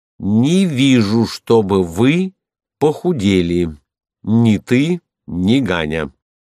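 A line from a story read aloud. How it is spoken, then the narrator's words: Slow, clear, enunciated. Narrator (Russian): ответил медленно, ясно, отчеканивая каждую букву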